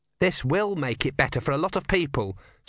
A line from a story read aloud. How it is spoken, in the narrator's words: said Erne calmly